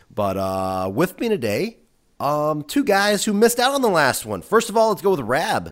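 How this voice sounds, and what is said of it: Sick, under-the-weather voice. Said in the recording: “sorry if I sound a little weird. I'm a little under the weather”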